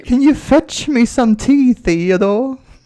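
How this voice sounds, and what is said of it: Mock British accent. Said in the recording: “making fun of the British accent”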